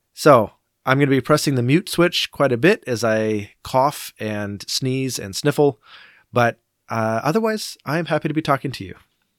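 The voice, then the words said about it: Congested, sick-sounding voice. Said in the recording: “you can hear it in my voice. I am a little sick... just congested, and the drainage in your throat is just inflaming your throat”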